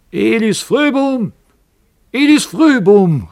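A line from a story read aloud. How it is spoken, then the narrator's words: Strong voice calling from above. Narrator (German): rief eine starke Stimme von oben herab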